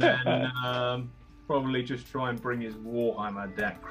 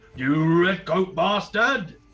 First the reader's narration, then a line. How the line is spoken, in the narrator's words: going to shout